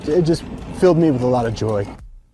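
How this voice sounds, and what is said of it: Choked up, emotional voice. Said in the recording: “got a little choked up”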